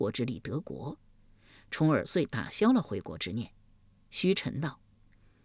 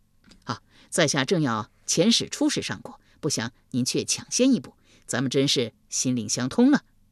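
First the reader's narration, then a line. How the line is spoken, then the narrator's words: Fawning, laughing. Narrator (Chinese): 夷吾一脸媚笑道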